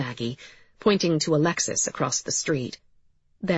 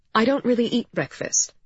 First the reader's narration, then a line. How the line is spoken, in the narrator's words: said Vega